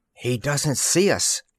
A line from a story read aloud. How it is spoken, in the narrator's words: whispered Mouse slowly